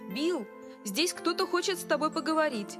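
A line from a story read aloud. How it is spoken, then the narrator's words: Shout across shop. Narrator (Russian): Эд крикнул в конец магазина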